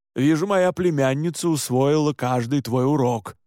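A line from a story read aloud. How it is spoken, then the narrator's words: Grumbling. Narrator (Russian): проворчал Александр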